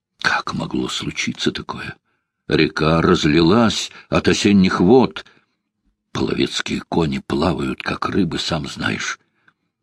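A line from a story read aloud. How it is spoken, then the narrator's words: Whisper. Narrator (Russian): Он шепнул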